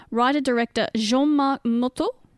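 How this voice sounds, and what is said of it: Put-on French accent. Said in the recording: “I'm trying to do my little French accent here.”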